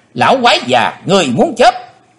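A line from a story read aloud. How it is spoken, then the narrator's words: Loud scream. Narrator (Vietnamese): Nàng hét to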